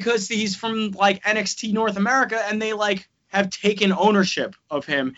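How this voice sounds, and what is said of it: Usual voice. Nothing is said of it.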